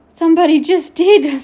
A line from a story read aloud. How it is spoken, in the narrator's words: spluttered Patrick